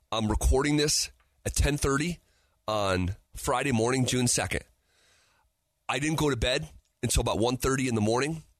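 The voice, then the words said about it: Strained, nearly lost, exhausted voice. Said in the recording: “I'm on the verge of losing my voice. ... I'm on the verge of falling over because I'm completely exhausted and spent.”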